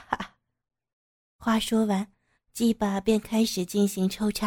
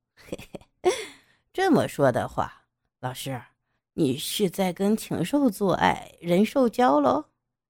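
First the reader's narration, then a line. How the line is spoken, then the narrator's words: Sneering. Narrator (Chinese): 杨野冷笑道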